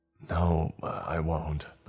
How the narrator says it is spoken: I whispered

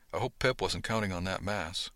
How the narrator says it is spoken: I mumbled to Beverly

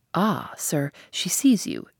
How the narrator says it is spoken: exclaimed Grace

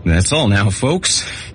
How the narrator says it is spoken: he wheezed

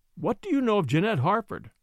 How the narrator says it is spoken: asked very calmly

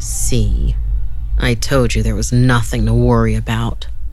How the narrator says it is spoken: Augie said as he chuckled

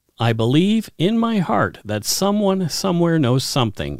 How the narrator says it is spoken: Yvonne says

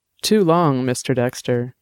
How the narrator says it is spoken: she purred

